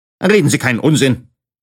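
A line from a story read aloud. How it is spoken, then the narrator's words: Stern gentleman interjecting. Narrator (German): mischte sich ein streng aussehender Herr ein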